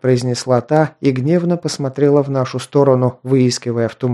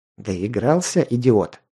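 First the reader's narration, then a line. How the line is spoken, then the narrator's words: Quiet, through clenched teeth. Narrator (Russian): тихо процедил Ал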